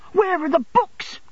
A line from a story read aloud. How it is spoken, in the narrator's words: he cried